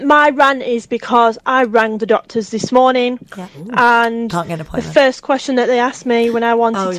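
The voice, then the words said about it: Strong northern English accent. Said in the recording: “I'm from the north, so please forgive me for my very northern accent where I don't pronounce any of my words properly”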